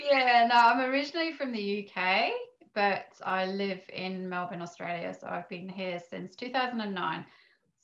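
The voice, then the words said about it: Mixed British and Australian accent. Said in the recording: “you have a bit of an accent ... I have a bit of a mixture of accents, which confuses people.”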